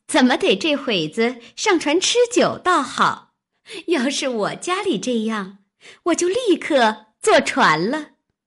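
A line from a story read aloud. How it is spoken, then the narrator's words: Laughing. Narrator (Chinese): 湘云笑道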